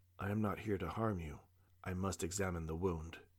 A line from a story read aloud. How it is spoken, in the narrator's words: said in a soothing tone